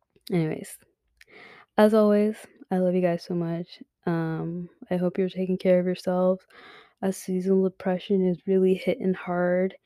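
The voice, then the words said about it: Strained, fading voice. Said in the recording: “I think I'm losing my voice ... I'm losing my voice.”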